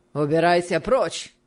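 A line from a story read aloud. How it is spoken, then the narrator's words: Rude reply. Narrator (Russian): ответил аукционист, грубо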